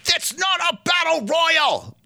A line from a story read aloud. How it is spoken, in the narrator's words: Mauro yells